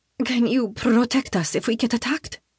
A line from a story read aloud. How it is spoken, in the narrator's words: asks desperately